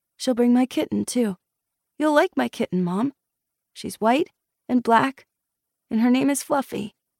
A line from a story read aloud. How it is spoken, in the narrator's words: to Ellen, in a softer voice